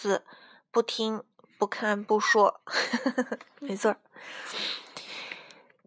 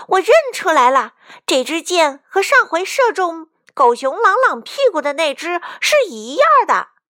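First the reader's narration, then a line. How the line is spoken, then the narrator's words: Shouting. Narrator (Chinese): 卡门喊道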